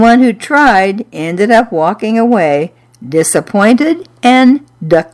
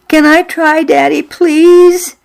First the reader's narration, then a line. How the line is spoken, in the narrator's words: I begged